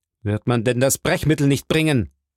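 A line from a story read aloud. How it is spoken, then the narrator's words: Doctor calling out. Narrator (German): rief der Doktor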